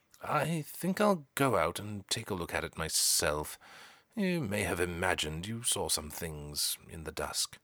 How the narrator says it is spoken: murmured Lord Melverson, half to himself

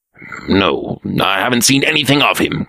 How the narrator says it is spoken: growled the Black Prince

